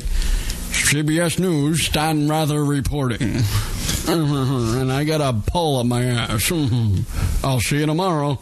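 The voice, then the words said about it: Imitates a news anchor's voice. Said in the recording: “Dead on, balls accurate, that impression.”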